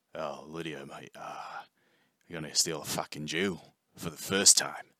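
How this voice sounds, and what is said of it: Bad put-on Australian accent. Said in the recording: “that's terrible Australian accent”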